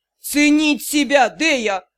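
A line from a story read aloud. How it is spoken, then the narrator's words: Growl. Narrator (Russian): прорычал Дроу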